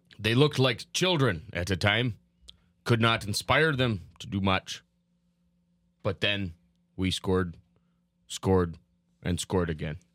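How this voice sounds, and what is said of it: Impression of Jacques Lemaire. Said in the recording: “It's a great impression of Jacques Lemaire. ... Former Wild coach. ... It's a great impression.”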